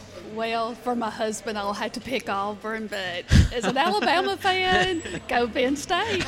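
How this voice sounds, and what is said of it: Southern American accent. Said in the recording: “I'm too country? ... I love a good Southern accent.”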